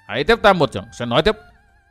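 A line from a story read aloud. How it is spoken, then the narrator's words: Youth's stern shout. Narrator (Vietnamese): Thiếu niên thanh y bỗng nặng giọng quát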